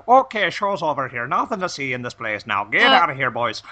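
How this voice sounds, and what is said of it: Thick Irish cop accent. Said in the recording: “thick Irish accents, second generation Irish cop accents.”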